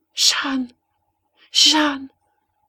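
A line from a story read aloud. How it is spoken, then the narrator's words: Horrified murmur. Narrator (French): murmura Hélène, glacée d'une horreur qui lui soufflait un grand froid dans les cheveux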